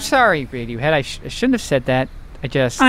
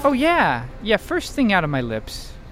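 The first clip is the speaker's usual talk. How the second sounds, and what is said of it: Sarcastic delivery. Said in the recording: “it was sarcasm”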